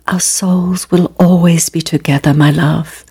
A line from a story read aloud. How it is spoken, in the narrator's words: he whispered